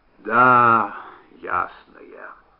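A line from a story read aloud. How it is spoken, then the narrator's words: Sigh. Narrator (Russian): И Штуб вздохнул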